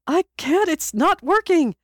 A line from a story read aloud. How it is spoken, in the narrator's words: Peter wailed, in his panic